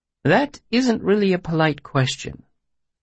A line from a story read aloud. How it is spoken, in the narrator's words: he said gently